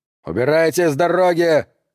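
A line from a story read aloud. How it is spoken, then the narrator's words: Yelling. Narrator (Russian): заорал Шеннон на Маркуса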